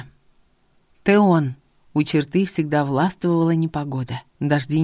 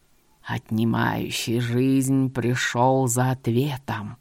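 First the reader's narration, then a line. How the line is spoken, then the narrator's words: Jinn's hissing grating barely audible voice. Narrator (Russian): голос джинна шипел, царапал слух и был еле различим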